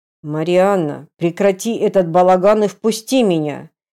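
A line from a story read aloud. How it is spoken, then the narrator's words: Threatening growl. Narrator (Russian): прорычал он, вкладывая в каждое слово угрозу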